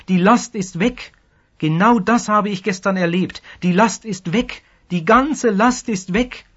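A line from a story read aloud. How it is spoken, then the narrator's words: Calling out, new convert. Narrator (German): rief der Neubekehrte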